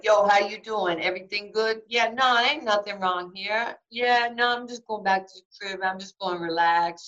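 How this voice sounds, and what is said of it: Heavy New York accent. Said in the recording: “I had my heavy New York accent at the time”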